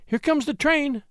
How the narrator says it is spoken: cried she

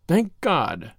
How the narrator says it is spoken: he muttered

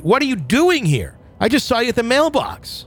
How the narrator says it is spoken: The hair on the back of my neck went up and I screamed

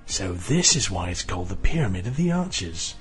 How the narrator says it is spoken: Ian breathed

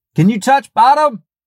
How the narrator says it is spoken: Above the roar of the water and my pounding heart, I heard Nick yell

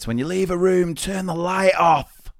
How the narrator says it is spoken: yelling to the kids

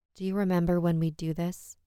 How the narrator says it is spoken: her husband muttered

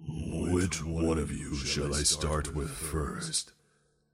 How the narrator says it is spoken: the beast inquires proudly in his chilling voice

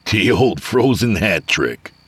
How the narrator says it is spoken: Avery said, chuckling

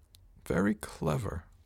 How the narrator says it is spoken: muttered

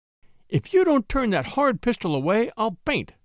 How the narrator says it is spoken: cried femininity in collapse

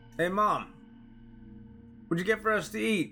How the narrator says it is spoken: I shouted

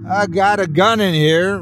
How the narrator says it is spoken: Ryan shouted

